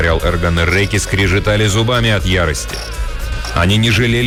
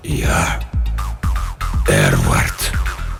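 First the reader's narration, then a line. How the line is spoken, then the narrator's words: Weak whisper. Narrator (Russian): прошептало то, что лежало на столе пыток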